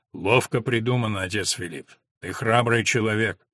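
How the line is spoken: Deep bass voice. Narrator (Russian): Отто пробасил

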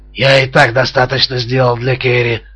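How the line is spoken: Hoarse voice. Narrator (Russian): ответил хриплый голос

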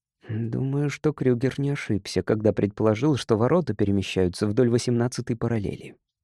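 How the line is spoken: Muttered. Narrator (Russian): пробормотал Кинрос

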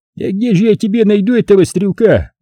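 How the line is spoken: Exclaiming. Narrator (Russian): воскликнул он

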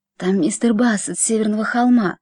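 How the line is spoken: Whisper. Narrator (Russian): прошептала тетушка

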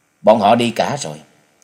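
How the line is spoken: Cold. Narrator (Vietnamese): hắn lại lạnh lùng thành tính, nên lên tiếng nói

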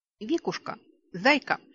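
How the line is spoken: Affectionate, tender. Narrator (Russian): ласково обратилась я

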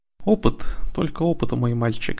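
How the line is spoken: Sighing. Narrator (Russian): вздохнул Тиран

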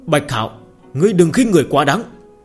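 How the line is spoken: Angry loud shout. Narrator (Vietnamese): sắc mặt tộc trưởng Trần gia giận dữ, hắn quát lớn

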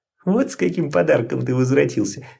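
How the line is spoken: Giggling. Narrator (Russian): хихикнула Лоттон

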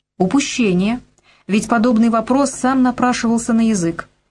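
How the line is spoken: Plain. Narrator (Russian): сказал генерал

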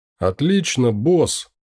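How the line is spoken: Joyful shout. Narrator (Russian): радостно выкрикнул Итан

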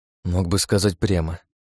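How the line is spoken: Grumbled. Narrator (Russian): проворчал я

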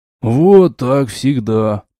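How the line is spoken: Grumbling. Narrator (Russian): проворчал Грилос

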